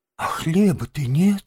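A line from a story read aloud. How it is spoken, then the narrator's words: Heavy sigh. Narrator (Russian): тяжко вздохнул крот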